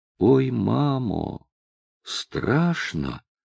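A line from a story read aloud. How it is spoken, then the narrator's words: Anguished dry-lipped whisper. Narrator (Russian): с надрывом шепнули пересохшие губы Христи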